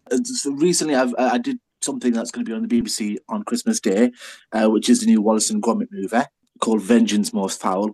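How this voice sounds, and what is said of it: Lancashire accent. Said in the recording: “With this accent,... I'm from Lancashire”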